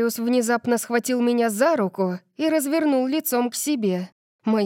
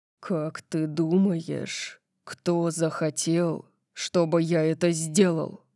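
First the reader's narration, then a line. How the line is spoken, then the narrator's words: Dangerously low voice. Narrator (Russian): Спросил он опасно низким голосом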